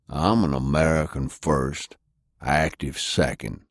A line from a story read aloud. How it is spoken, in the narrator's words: Sullivan growled